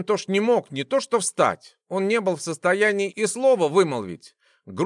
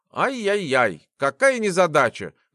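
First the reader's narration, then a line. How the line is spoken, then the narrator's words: Mocking giggle. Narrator (Russian): глумливо хихикнул Джек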